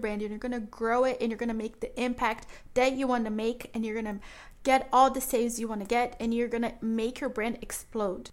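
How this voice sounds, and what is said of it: Excited, enthusiastic voice. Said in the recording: “hear the excitement in my voice”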